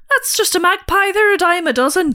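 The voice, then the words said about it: Imitated Irish accent. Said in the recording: “I can't do the Irish accent. You do. ... I'm sure Irish listeners would agree. That was very good. ... That was spot on.”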